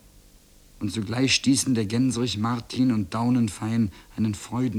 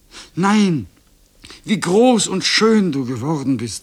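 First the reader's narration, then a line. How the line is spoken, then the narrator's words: Called out. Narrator (German): rief sie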